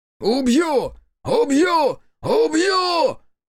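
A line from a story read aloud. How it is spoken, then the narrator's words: Voice-breaking scream. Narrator (Russian): Срывая голос, орал Хитсу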